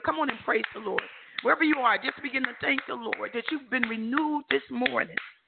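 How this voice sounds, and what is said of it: Hoarse, strained voice. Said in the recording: “I apologize for my voice. I had laryngitis last week, and I'm getting over it fully this week.”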